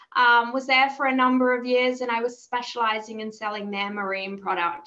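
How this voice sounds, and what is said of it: Australian accent. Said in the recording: “You might hear from my accent. I am Australian”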